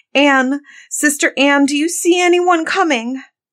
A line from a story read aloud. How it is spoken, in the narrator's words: the poor afflicted wife cried out from time to time